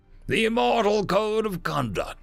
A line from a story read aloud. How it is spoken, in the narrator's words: Daxton grumbled